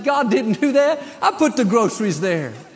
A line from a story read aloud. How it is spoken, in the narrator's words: He laughed and laughed, said